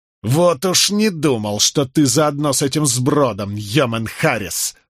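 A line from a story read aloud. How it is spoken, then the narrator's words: Spitefully through teeth. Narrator (Russian): злобно процедил Вайтерингтон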